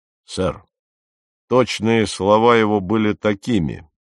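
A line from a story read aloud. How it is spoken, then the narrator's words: Loud, firm, immediate. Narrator (Russian): ответил мистер Фрейер, на сей раз громко, твердо и без какого-либо промедления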